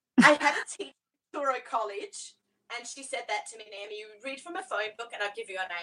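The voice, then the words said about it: Australian accent. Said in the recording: “proud that I got to grow up as an Aussie... someone commenting on my accent... the accent definitely has been a leg up”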